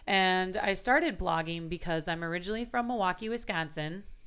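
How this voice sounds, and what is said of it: Wisconsin accent. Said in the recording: “There's that accent there.”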